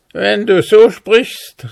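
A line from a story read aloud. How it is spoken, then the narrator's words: Dwarf calling grimly. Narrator (German): rief grimmig der Zwerg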